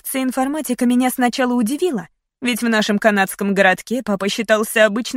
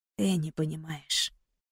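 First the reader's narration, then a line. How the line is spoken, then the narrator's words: Whisper. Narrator (Russian): прошептал он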